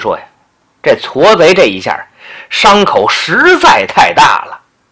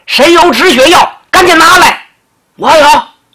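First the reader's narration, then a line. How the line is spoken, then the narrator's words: Shouting. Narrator (Chinese): 这刘世杰还喊呢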